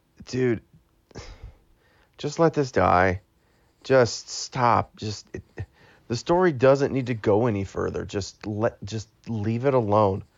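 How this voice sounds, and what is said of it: Rough, congested, strained voice. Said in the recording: “I've got a cold or something, so my voice is really messed up.”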